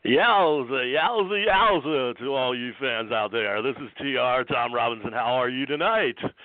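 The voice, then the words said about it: Fake radio announcer voice. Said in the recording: “That's my radio fake voice.”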